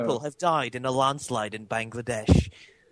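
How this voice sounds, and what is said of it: Imitated British BBC newsreader accent. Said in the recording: “BBC, not the comedy one. ... we're listening to the BBC News. ... You can nail it when you try, man. ... what accent are you doing?”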